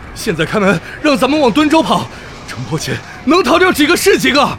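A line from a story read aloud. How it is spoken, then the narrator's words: Banging door, shouting. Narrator (Chinese): 拍门喊道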